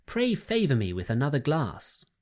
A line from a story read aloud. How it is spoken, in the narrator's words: she cried